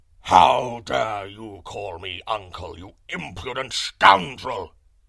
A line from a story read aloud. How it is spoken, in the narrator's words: roared the lion, in a voice of thunder